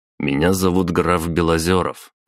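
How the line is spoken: Cold. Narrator (Russian): холодно произнес я

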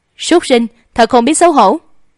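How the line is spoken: Furious cursing. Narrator (Vietnamese): Thủy Thường Thư tức giận tới hai mắt đỏ sọc, chửi bậy nói

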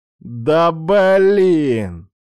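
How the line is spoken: Drawn-out drawl. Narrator (Russian): протянул Рома

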